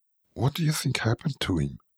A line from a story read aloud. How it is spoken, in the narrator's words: she whispered